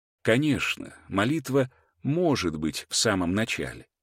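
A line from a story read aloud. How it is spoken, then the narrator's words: Soft reply. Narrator (Russian): мягко ответил он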